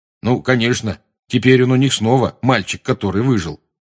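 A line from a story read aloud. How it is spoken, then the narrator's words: Gloomy remark. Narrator (Russian): мрачно заметил Рон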